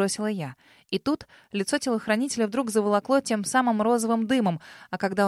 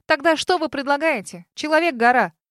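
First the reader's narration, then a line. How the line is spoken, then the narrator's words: Impatient bark. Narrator (Russian): Рявкнула, теряя терпение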